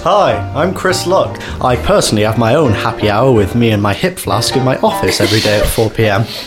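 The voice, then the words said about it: Slightly northern English accent. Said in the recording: “has put on a slightly northern accent”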